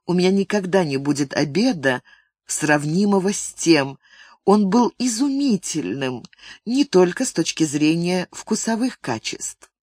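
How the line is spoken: Quiet, intimate. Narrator (Russian): она, наконец, тихо произнесла очень интимным тоном

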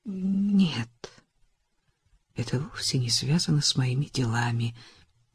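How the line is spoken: Gentle, guilt-ridden. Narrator (Russian): мягко сказал он, ненавидя себя за боль, которую причиняет Франсин

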